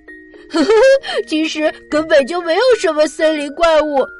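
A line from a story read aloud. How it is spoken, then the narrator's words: Loud laughter. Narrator (Chinese): 琪琪这时哈哈大笑起来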